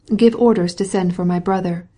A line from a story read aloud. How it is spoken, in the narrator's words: said she